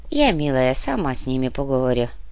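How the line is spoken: Calm old woman. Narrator (Russian): спокойно сказала старуха

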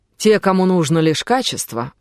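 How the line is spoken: Plain. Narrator (Russian): ответил Оливер

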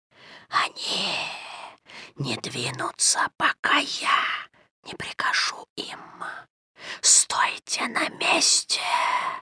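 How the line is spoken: Hissing. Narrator (Russian): Прошипел Каа

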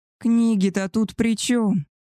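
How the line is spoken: Wailing howl. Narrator (Russian): взвыл Альфа

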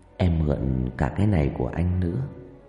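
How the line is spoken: Whispering. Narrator (Vietnamese): Trang thì thầm

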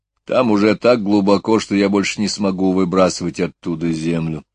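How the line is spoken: Plain. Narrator (Russian): сказал он

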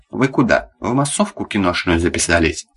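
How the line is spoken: Plain question. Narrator (Russian): спросил Миша

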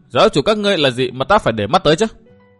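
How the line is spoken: Young woman's cold scoff. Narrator (Vietnamese): Thiếu nữ cười nhạt

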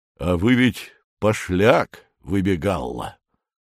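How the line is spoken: Unexpectedly calm declaration. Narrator (Russian): неожиданно спокойным голосом объявляет Федор Семенович

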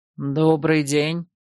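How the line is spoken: Low male voice. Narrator (Russian): поздоровался мужчина низким голосом

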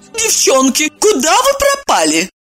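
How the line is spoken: Offended sing-song. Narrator (Russian): обиженно пропела Ирина

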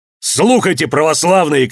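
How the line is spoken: Shouting. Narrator (Russian): крикнул он

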